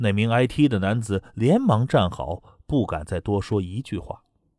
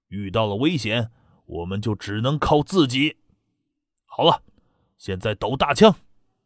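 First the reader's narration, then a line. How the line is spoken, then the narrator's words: Cold voice. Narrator (Chinese): 瘦削男子冷声说着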